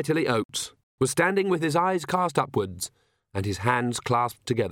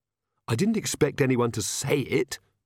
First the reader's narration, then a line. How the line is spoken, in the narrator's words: Magrat hissed